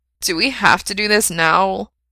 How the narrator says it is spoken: whines

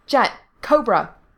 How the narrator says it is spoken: he barked

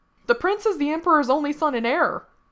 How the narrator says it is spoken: cried another

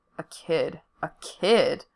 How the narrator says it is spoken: Frank keeps muttering

